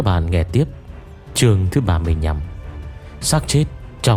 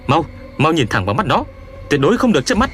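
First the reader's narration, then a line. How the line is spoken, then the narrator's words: Frantic shout. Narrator (Vietnamese): cuốn cuồng quát cậu ta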